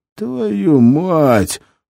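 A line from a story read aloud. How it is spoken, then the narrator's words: Booming voice from box. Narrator (Russian): прогремел голос ящика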